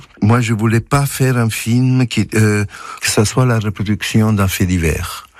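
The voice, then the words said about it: Soft Italian accent speaking French. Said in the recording (French): “Vous êtes italien, on entend votre doux accent”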